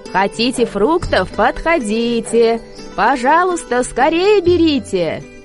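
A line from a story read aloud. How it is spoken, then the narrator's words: Shouting. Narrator (Russian): крикнула она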